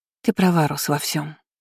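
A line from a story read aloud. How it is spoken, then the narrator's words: Quiet. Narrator (Russian): тихо сказала Аня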